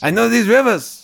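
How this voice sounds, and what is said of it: Jon Voight's South American accent. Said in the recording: “Accent. ... I want to talk like him the rest of my life. ... I guess it is sort of a South American accent. ... It is 100% that.”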